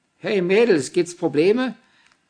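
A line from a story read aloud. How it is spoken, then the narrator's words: Distant call from window. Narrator (German): rief jemand aus dem Fenster des gegenüberliegenden Hauses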